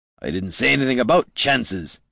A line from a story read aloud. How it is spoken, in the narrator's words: Gorm growled